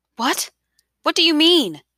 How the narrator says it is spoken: Isabel asked, panting

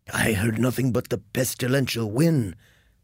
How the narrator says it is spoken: said Georg hoarsely

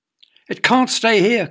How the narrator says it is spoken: cried Elvie

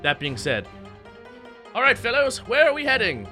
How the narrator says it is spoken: As Ozon shouts over the wind

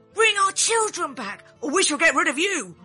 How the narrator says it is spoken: The townspeople cried

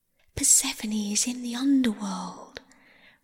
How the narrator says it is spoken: whispered the water

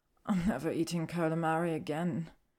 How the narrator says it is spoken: she mumbles begrudgingly

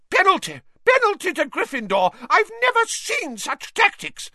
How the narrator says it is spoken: Madame Hooch screeched

